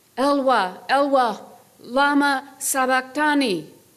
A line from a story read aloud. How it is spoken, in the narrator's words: Jesus cried out with a loud shout